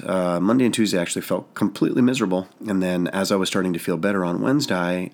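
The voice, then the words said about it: Sick, nasal, strained voice. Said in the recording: “as you may or may not be able to tell from my voice, I've been a little bit sick ... I thereafter immediately lost my voice ... you sound so nasally that nobody wants to listen to you anyways”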